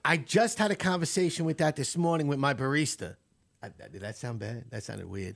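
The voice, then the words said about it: Heavy New York accent. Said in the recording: “I love that heavy New York accent.”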